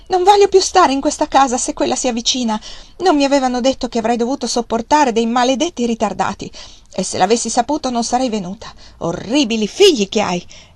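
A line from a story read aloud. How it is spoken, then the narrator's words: Furious exclamation. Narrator (Italian): Scossa dalla rabbia esclamò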